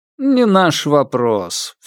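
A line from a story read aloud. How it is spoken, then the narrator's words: Lazy retort. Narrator (Russian): все так же лениво отбил Попов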